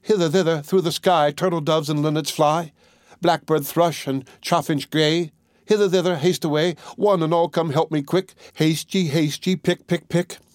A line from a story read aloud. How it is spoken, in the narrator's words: the little maiden ran out at the back door into the garden and cried out